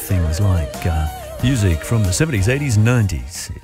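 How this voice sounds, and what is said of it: Put-on radio announcer voice. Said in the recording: “I was trying to put on a radio voice there.”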